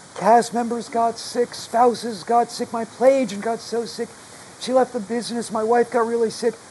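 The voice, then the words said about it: Hoarse, altered strained voice. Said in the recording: “I wonder if he has laryngitis. His voice is a little different ... weird long-haul COVID side effect, which affects my voice ... my voice is just gone”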